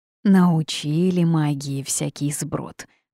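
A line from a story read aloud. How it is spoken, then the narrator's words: Machine speaking through gritted teeth. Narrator (Russian): процедила машинка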